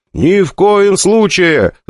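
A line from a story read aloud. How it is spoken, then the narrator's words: Shouting in unison. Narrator (Russian): заорали мы с Игорем в один голос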